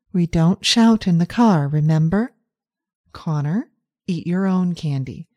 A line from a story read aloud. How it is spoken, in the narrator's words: Amora says in her soothing voice